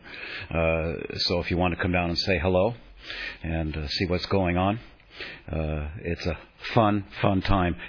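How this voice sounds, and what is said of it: Deeper, tired voice. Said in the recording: “my voice is a little deeper this morning after 4 hours of talking nonstop”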